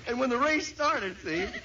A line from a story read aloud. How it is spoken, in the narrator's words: they yelled